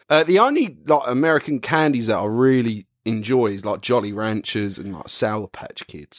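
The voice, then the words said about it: Put-on American accent. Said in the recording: “you had to say that with like an American accent.”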